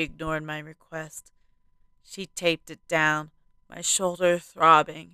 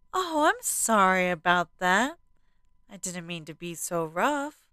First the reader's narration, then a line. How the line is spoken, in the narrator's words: she apologized, her tone ditzy